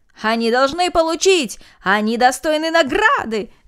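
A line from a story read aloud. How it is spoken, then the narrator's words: Crowd shouting. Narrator (Russian): закричали все без исключения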